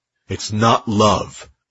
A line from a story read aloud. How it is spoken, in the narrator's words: Dex growled